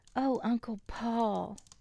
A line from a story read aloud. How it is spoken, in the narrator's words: exclaimed Nina